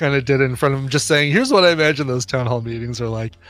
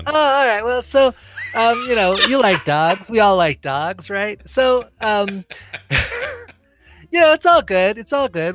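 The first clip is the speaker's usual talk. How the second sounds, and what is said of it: Imitates another person's voice. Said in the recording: “impersonation I haven't stolen from Saturday Night Live ... It's dead on. It's so dead on. 100% dead on.”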